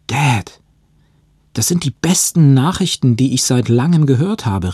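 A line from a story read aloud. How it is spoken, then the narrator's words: Exclaiming. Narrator (German): rief ich aus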